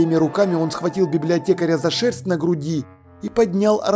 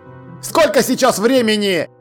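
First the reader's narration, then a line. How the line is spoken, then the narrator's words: Shouting. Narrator (Russian): прокричал он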